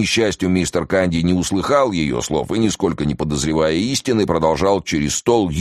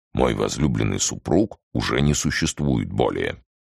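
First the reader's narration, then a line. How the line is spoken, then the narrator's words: Quiet voice. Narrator (Russian): проговорила тихим голосом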